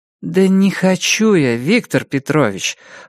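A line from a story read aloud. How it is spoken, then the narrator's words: Tired. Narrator (Russian): устало сказала я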